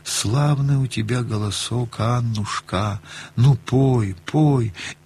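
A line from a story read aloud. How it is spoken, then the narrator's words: Weak voice. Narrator (Russian): говорит слабым голосом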